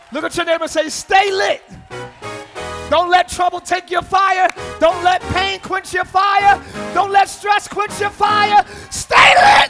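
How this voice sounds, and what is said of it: Yelling preacher. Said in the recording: “I'm yelling too much.”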